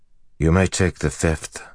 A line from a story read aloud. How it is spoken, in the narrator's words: he said